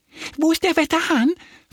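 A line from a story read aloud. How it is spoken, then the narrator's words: Excited question. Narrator (German): fragt Annie aufgeregt die Hühner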